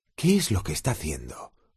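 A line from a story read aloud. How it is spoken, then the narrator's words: Murmur. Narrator (Spanish): murmuró Harry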